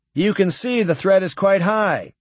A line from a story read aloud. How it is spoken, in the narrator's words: Cargill said smoothly